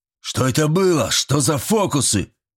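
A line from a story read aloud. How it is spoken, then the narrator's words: Shout. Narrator (Russian): крикнул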